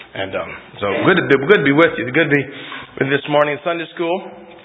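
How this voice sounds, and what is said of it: Voice still low and weak. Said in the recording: “I'm coming out of the cough thing ... my voice is still kind of down there”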